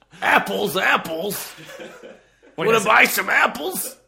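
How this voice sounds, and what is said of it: Imitates another person's voice. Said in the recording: “my Shakespeare impression”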